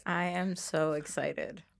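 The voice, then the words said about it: Flat monotone delivery. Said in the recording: “You sound very excited. ... It's the monotone for me.”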